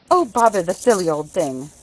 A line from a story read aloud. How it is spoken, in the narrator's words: would say indignantly, when the sail would not go up properly